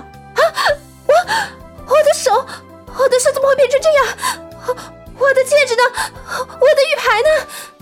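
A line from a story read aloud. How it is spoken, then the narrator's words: Sobbing bitterly. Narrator (Chinese): 刘静痛哭失声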